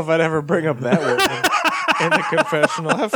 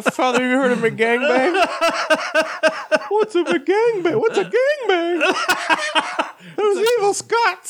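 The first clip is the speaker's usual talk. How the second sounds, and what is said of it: High-pitched imitation of another person. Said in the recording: “good Father Obesity impression ... he sounds like Mickey Mouse slash... ... that really high-pitched thing”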